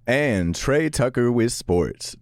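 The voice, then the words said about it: Deep sportscaster radio voice. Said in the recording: “radio voice ... make me sound like I'm a sportscaster ... I definitely got like a good deep timbre”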